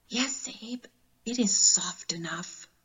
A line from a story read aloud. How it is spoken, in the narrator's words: the mother whispered